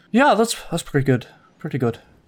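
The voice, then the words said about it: Inconsistent put-on character accent. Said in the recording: “I excuse the inconsistency in this accent”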